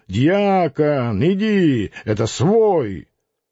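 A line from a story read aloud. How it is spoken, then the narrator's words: Shout. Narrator (Russian): крикнул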